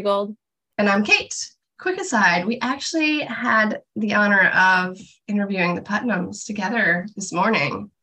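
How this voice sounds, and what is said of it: Sick-sounding voice. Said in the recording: “my voice did not sound like that then. I've progressively gotten sick as the day goes on. And so I apologize for my voice”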